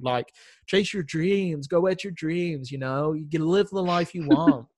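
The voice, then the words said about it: Put-on American accent. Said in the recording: “I love how you've got an American accent for that bit.”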